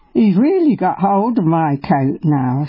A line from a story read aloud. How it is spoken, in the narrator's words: I said